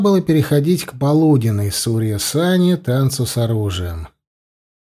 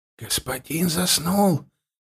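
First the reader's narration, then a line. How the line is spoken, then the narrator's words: Whisper meant to be faint. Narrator (Russian): еле слышно, как ему казалось, прошептал кто-то из слуг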